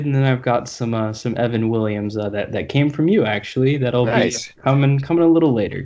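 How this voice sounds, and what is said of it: Voice affected by a cold. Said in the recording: “hear from your voice, recovering from a little bit of a cold”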